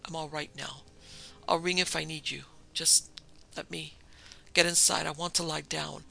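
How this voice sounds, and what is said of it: Hoarse whisper. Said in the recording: “hoarse whisper”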